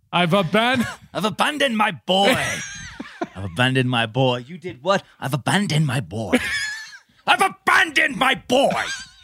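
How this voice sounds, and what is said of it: Imitates another person's voice. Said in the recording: “my favorite Oliver Hudson impersonation”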